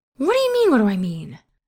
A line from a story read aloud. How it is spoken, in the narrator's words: Roger shrieks